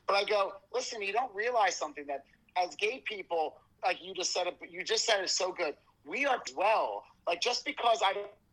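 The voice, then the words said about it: Long Island accent. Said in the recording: “I'm from Long Island, people. That's why that accent always comes out. So all my friends from Long Island, that's exactly the way I talk.”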